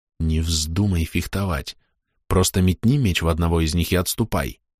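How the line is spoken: Quiet. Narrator (Russian): тихо сказал

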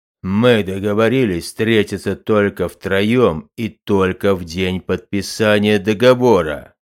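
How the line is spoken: Thunderous voice. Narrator (Russian): Громоподобным голосом напомнил Бацами

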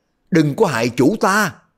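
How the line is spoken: Four voices shouting together. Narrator (Vietnamese): Đặng Bách Xuyên, Công Giả Càng, Bao Bất Đồng, Phong Ba Ác, bốn người đồng thanh la lên

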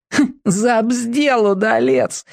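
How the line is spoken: Snickering spectator. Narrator (Russian): хихикнул кто-то из ехидных зрителей

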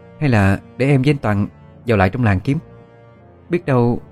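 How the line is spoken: Hesitant. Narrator (Vietnamese): Ân nói với giọng ngập ngừng

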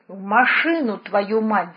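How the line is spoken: Growl. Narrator (Russian): зарычал Варламов

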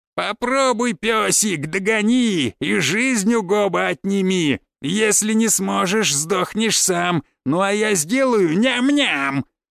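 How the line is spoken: Laughing, taunting. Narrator (Russian): Хохотал, подразнивая монстров

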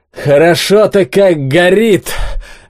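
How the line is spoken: Joyful exclamation. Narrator (Russian): радостно воскликнул Олег

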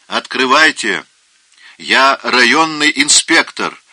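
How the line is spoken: Shouting through gap. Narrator (Russian): прокричал в щель

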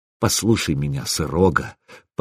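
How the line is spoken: Almost tender. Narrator (Russian): почти ласково проговорил я

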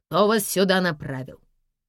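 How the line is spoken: Stern inquiry. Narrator (Russian): строго осведомилась охранница

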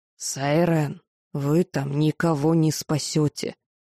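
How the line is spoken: Hissed. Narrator (Russian): прошипел профессор

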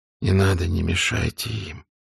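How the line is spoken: Quiet. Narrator (Russian): тихо сказал он

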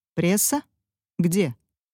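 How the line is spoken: Sharply changed tone. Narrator (Russian): Тон его резко изменился

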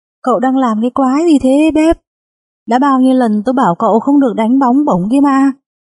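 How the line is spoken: Yelling coach. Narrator (Vietnamese): huấn luyện viên hét lên

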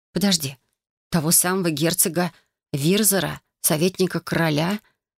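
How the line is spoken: Hopeful whisper. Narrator (Russian): Прошептала я, все еще надеясь, что он шутит

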